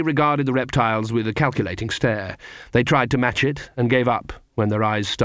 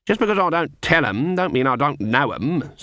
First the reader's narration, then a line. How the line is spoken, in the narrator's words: said Granny haughtily